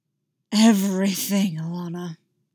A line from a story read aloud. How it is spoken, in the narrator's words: he growled